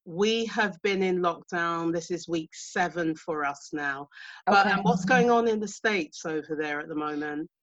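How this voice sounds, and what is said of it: British accent. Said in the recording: “I'm in the UK because you can hear from my accent.”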